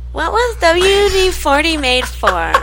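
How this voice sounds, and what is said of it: Whiny imitated voice. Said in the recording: “in your Todd voice, your impersonation of Todd ... He's so whiny all the time.”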